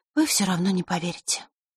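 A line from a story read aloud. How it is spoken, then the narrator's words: Sighing. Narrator (Russian): вздохнула она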